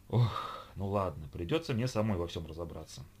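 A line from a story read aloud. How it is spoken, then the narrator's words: Weary sigh. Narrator (Russian): устало вздохнула Ольга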